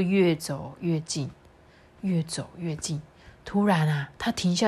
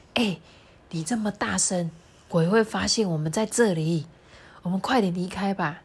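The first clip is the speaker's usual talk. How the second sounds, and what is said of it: Quiet, hushed character voice. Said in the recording (Chinese): “大野狼小声的说”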